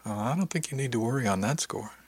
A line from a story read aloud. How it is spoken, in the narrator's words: she said warmly